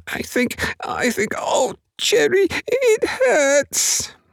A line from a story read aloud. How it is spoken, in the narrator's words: he squeaked